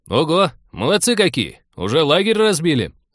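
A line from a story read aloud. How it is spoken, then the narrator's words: Approving shout. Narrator (Russian): одобрительно заорал Артур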